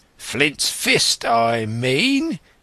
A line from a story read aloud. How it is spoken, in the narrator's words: cried